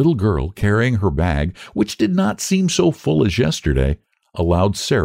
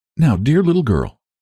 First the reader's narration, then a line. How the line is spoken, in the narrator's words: said Sarah, and her voice trembled